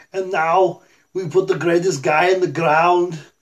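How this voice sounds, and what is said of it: Arnold Schwarzenegger impression. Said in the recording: “Arnold would do mine and be like”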